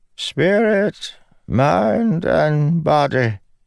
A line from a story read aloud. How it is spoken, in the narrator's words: the wizened Ardent said, her voice echoing in the stone catacomb